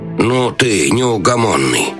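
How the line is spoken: Grumbling. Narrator (Russian): проворчал советник

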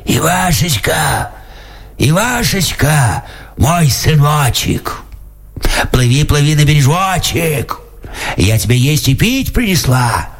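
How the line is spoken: Shouts hoarsely. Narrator (Russian): кричит хриплым голосом

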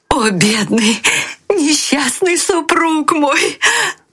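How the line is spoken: Shouting. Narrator (Russian): кричала

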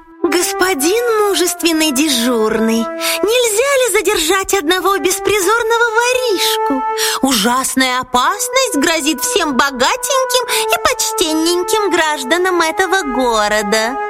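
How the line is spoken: Sweet well-meaning little voice. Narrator (Russian): Лиса самым благонамеренным голоском сказала ему

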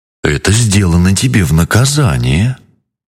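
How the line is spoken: Plain. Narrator (Russian): сказал Джин

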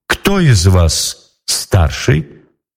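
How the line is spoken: Plain question. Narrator (Russian): спросила Елена Прекрасная

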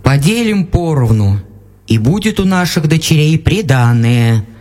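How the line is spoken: Plain. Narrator (Russian): сказал отец

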